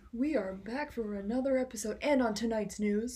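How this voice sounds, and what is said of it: Mock radio announcer voice. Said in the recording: “I feel like I have to like put on a radio voice.”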